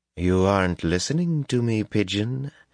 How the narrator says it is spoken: Tylan cooed in dangerous tones

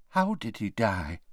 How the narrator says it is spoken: whispered Tonks

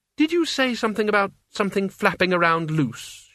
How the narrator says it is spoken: she said, in the tight voice of someone pulling themselves together

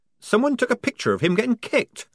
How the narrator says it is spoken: squeaked Polly, drenched in a sudden horror

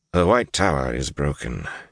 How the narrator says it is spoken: said flatly

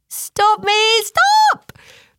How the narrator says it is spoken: All of a sudden, Chickadee called out

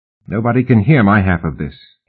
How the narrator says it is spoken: he said quickly, putting a finger to his lips

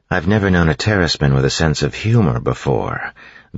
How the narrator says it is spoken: Vin said dryly

